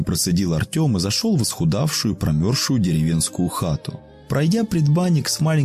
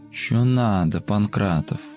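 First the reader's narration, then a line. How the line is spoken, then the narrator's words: Sleepy moan. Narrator (Russian): сонным голосом простонала Маша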